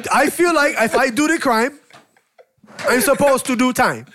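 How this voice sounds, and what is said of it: Imitates another person's accented voice. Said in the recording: “I don't even sound like that. ... Why did he go all suicide bomber with his accent”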